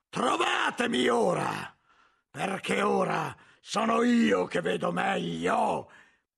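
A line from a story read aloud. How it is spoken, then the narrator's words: Laughing shout. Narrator (Italian): la risata di Jorge che gridava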